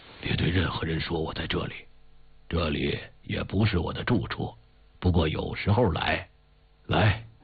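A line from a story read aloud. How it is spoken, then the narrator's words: Relieved old man, low. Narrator (Chinese): 老人仿佛是放了心，低声地说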